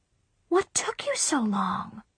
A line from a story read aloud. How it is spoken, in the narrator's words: Mom whispered really loudly